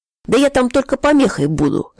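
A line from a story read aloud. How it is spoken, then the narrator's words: Cheerful. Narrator (Russian): сказал бодро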